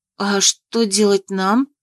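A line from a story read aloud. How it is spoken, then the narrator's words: Little sister, bewildered question. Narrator (Russian): растерянно спросила сестренка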